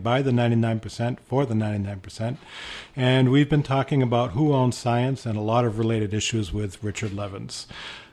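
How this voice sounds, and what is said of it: Boston accent. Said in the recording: “I'm the one with the Boston accent ... my Boston accent ear”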